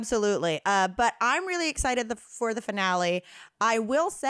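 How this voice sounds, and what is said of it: Usual voice. Nothing is said of it.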